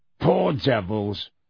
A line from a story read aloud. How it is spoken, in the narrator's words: growled Moody